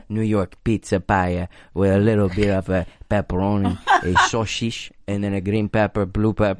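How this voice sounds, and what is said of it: Put-on Armenian-Italian accent. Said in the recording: “Is that Italian? ... I'm not sure what accent that was. It's like an Armenian ... with a little bit of Italian.”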